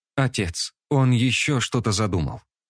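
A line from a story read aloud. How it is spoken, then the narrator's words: Calm young woman. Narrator (Russian): спокойно произнесла девушка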